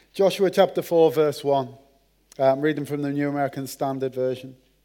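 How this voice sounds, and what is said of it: Merseyside English accent. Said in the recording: “my accent. The Queen's English from Merseyside.”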